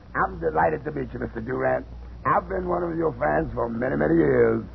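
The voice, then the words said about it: Very low, rough gravelly voice. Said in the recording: “This man speaks with a very low falsetto. ... Where did you ever get such rough tonsils? Why don't you file them down?”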